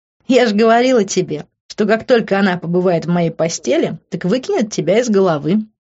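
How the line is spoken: Laughing. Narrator (Russian): рассмеялась Рита

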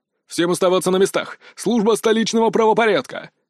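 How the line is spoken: Loud barked command. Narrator (Russian): гаркнул с порога руслый субъект в черной униформе

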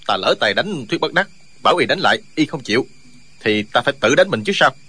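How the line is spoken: Resentful sulky tone. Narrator (Vietnamese): Chu Điên hậm hực nói

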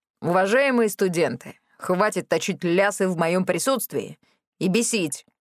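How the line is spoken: Menacing growl. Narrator (Russian): угрожающе прорычал Милхаус

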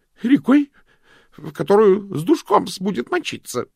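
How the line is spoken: Desperate, vicious snapping. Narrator (Russian): огрызнулся он в отчаянии, злобно

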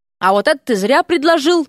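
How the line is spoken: Governess mutters then barks. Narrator (Russian): пробормотала гувернантка и рявкнула

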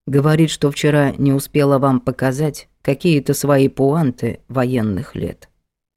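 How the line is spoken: Calm speech. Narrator (Russian): Домоправитель спокойно произнес

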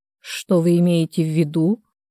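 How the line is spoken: Gentle. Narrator (Russian): мягко уточнил Николай

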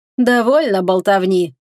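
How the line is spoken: Laughing king. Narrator (Russian): рассмеялся король Альмирании

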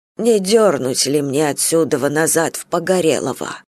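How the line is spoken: Plain. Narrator (Russian): спросил он

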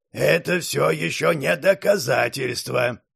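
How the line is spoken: Creaky, grating voice. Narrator (Russian): проскрипел Патрик

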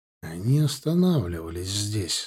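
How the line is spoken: Said quietly. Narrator (Russian): сказал тихо

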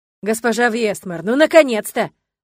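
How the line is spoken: Exclaimed. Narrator (Russian): воскликнул он

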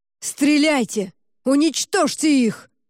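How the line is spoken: Shouting from behind. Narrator (Russian): кричали за спиной

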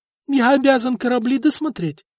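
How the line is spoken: Brave squeak. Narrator (Russian): отважно пискнул чиновник

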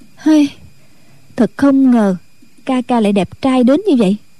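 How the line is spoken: Sighing. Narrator (Vietnamese): Thù Nhi lại thở dài nói

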